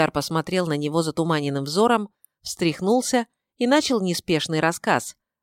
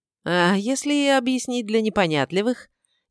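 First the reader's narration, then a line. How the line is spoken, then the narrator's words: Snide interjection. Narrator (Russian): Ехидно вклинился Рыжик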